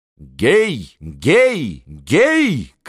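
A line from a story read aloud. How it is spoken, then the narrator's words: Shouting to beggars. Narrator (Russian): кричала Анна нищим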